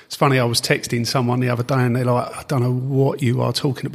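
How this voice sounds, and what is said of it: Essex English accent. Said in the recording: “an Essex man in Northern Ireland... you wouldn't know it from the accent... it's never left me”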